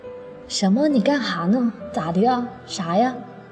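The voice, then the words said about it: Northeastern Chinese accent. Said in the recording (Chinese): “她聊天还是满口的东北味儿”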